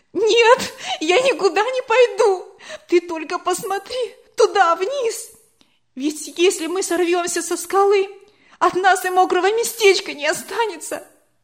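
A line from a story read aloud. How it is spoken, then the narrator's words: Loud sobbing. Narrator (Russian): она громко во весь голос зарыдала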